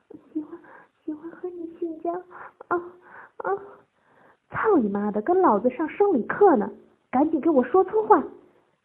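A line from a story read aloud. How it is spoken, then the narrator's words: Loud shout. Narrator (Chinese): 陈三大声喊道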